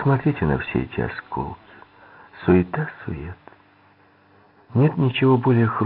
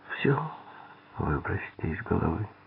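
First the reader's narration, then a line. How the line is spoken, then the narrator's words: Weak voice. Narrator (Russian): слабым голосом сказала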